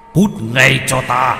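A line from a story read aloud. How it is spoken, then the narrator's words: Shouted. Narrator (Vietnamese): Ông ta quát lên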